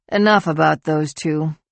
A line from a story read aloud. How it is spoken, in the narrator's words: Alex sighed